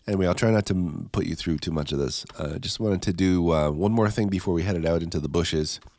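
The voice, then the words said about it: Stuffed-up, congested voice. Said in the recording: “I sound a little stuffed up... I wake up in the morning and I sound like I have the flu”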